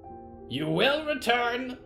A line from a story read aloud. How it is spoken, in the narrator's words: ravens shrieked together